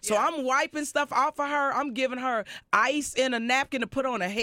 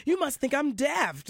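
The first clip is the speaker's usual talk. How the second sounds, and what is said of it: Put-on British accent. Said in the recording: “you know how they talk in that British accent.”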